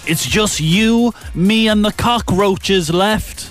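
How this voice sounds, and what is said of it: Put-on American twang. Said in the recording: “Did he say it in that accent? ... He said it probably not with that American twang.”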